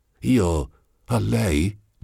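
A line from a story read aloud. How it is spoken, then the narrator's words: Stammered. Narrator (Italian): balbettò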